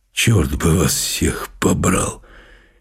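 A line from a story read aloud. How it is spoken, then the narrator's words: Audible muttering father. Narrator (Russian): слышно бормочет папа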